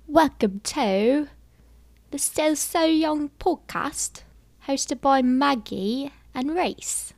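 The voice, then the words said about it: Put-on English accent. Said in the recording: “I'm good at like an English accent.”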